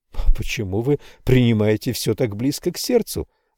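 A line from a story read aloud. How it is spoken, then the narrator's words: Calm question. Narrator (Russian): спокойно спросил Рой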